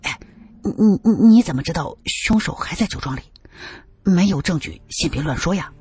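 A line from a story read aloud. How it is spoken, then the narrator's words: Hurried whisper. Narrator (Chinese): 赵磊忙小声的说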